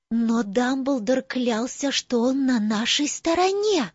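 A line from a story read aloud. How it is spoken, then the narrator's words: Whispered. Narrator (Russian): прошептала Тонкс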